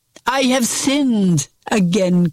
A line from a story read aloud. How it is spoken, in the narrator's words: cried Judas